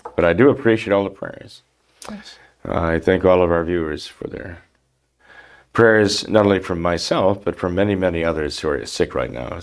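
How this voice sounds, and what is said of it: Gravelly, rough voice. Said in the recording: “My voice is still a bit gravelly”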